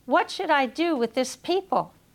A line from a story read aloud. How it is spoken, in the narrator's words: As their anger increased, Moses cried out to the Lord